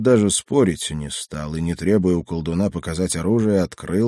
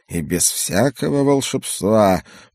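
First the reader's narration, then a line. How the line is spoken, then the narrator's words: Muttered under breath. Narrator (Russian): пробормотал себе под нос мой недруг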